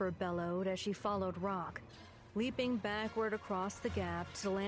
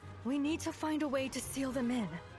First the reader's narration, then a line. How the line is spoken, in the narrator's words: called through gasping breaths